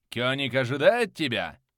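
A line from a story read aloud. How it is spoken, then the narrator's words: Roaring. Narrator (Russian): проревел один из них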